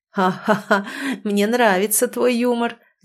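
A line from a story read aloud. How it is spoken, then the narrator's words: Laughing devil. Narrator (Russian): засмеялся бес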